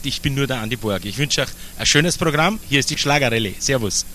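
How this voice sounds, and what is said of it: Speaks with a regional dialect. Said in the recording (German): “was hat der denn für ein Dialekt?”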